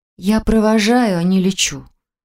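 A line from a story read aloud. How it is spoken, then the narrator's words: Sighing. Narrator (Russian): вздохнула Марина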